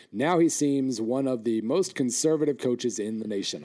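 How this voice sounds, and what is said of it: Hoarse, fading voice. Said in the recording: “I'm losing my voice fast”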